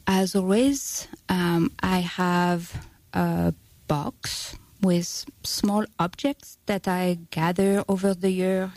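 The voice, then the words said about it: French accent. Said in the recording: “I'm sure you can tell that my accent may be connected to that country ... France”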